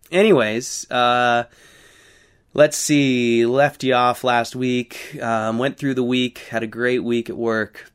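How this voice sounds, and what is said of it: Slightly hoarse, snuffly voice. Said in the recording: “I'll be snuffling a little bit through this, and my voice is a little hoarse”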